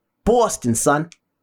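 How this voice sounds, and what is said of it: Poor put-on Boston accent. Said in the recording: “That's not a great Boston accent”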